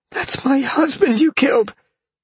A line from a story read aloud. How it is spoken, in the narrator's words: she gasped back at him